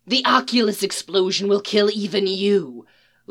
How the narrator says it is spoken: Len hisses to Mick's ear

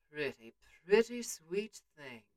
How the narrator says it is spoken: came a low murmur

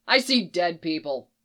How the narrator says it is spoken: Jason snaps

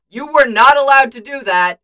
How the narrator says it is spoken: he yells

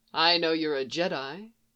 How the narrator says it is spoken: Qui-Gon said

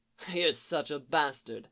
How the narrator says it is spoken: Lucifer replied, chuckling, eyes sparkling in amusement

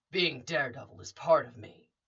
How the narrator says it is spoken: Damien said, in that low voice that didn't quite match Matt's In the Mask Batman impression

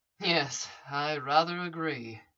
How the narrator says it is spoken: he murmured

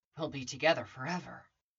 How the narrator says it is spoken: Anakin muttering to himself

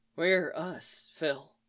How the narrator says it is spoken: Clint whispers

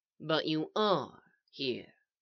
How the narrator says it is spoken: the voice said evenly

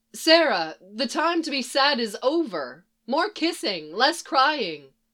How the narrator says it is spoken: in a louder voice, she says

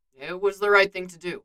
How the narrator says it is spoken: Steve says

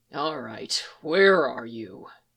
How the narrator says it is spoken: he muttered

